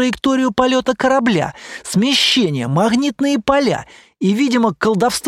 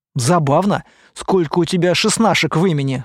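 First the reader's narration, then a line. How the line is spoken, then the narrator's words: Amused snort. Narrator (Russian): хмыкнул я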